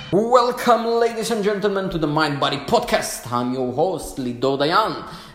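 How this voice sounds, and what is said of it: Jewish-accented English. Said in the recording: “the sexy Jewish accent”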